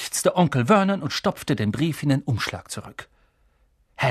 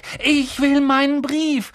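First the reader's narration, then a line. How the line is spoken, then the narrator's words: Calling out. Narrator (German): rief er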